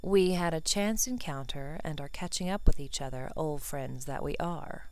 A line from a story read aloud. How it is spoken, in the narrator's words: Malfoy supplied smoothly, a hint of a smirk gracing his lips